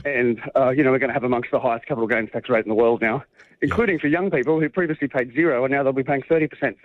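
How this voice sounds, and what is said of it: Out of breath while speaking. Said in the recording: “You're out of breath because you've got to run and make that plane. ... Yes, no, I am actually. ... Walking very fast.”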